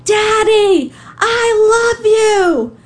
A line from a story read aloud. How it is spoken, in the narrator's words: her wet face, she screams